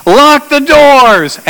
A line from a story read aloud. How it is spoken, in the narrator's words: she shouts